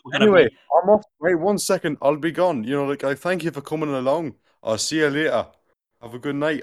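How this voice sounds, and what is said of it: Put-on Geordie accent. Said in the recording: “I've gone Geordie. ... Like, I've changed accent. ... I've gone Michael the Geordie”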